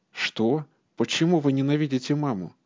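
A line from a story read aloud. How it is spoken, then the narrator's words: Indignant thin childish voice. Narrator (Russian): возмутилась Бэк тонким, еще детским голосом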